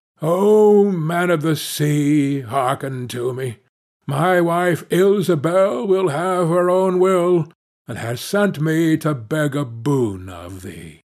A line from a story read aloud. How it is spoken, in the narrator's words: as he cried out